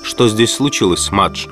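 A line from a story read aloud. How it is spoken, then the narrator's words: Calm young man. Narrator (Russian): спросил молодой человек спокойно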